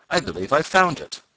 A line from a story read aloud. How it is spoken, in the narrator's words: he cried